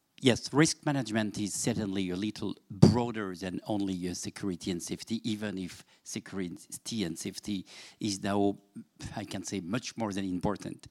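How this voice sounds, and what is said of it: French accent in English. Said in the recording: “my accent, which is not Scottish, which is not English, just only French ... It's lovely French.”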